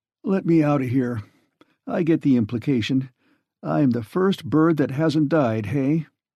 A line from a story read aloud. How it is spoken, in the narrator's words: He yawned luxuriously